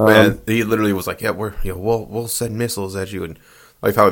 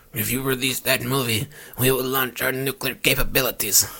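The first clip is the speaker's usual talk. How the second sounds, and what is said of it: Failed Korean accent, raspy gravelly voice. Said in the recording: “I can't do a Korean accent ... That sounded like you were fucking... I don't even know what that was. ... That's my Wario impression. ... It sounded like you were a heavy smoker for 64 years.”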